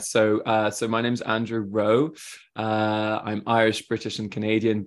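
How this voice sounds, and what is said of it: British accent, slightly French-tinged. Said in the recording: “I have a British accent, but actually, if I hang out a lot with French people, my accent goes a bit French”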